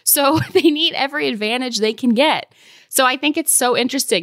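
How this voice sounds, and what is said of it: Laughing while speaking. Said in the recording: “you can hear the laughter in my voice.”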